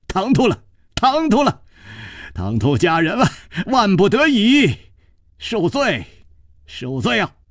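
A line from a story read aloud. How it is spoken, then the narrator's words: Laughing. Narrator (Chinese): 楚留香 笑道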